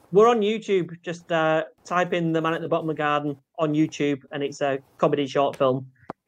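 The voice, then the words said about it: Lovely, soothing accent. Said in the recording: “He's got such a lovely accent, hasn't he? ... It's so soothing.”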